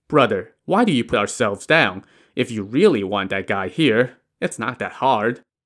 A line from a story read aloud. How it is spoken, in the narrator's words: Wu Yong chuckled and said